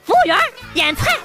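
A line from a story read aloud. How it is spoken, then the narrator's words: Loud call. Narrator (Chinese): 大声的喊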